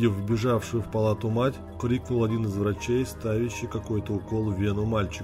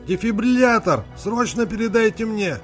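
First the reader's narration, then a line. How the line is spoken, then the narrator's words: Urgent shout. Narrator (Russian): Тут же крикнул он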